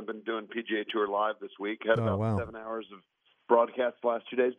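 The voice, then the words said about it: Slightly hoarse, worn-out voice. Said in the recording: “I'm losing my voice a little bit this morning”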